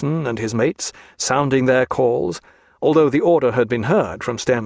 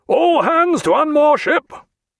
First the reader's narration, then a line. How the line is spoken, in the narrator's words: he said to poor Draper, and then, in a very much louder voice